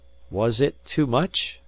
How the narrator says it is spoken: I asked, a little faltering

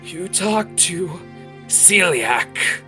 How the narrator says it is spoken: he says with a pain gasps

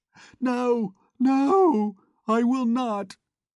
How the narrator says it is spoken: she shrieked in a loud and heart-rending voice

